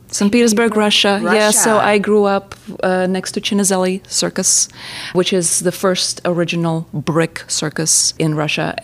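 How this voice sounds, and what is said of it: Russian accent. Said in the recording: “I love ... accent”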